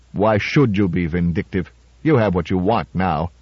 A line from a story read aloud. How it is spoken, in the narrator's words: added bitterly